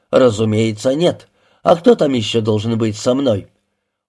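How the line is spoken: Indignant question. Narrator (Russian): возмущенно спросил

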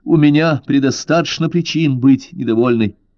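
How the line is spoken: Urge to shout. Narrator (Russian): ей захотелось крикнуть

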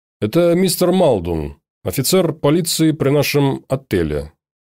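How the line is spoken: Plain. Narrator (Russian): сказал клерк

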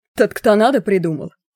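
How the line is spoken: Werewolf's snort. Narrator (Russian): хмыкнул оборотень

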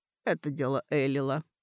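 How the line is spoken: Plain. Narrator (Russian): ответил травник

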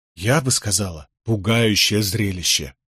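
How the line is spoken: Quiet correction. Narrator (Russian): негромко поправила Этельреда

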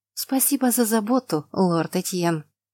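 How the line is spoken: Through gritted teeth. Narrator (Russian): процедила я сквозь зубы

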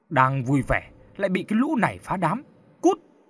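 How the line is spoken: Loud shout. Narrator (Vietnamese): Một thằng đàn em quát lớn

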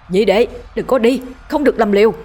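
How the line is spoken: Desperate shout mid-fight. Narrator (Vietnamese): Vĩnh Quyền trưởng môn vừa đánh vừa gào lên ngăn cản

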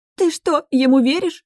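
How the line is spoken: Shrieked. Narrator (Russian): взвизгнула Эрика

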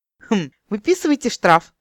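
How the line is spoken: Insolent snort. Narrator (Russian): нагло фыркнул Мейна

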